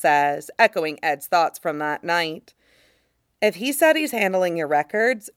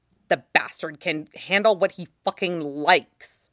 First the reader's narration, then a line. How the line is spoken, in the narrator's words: he mutters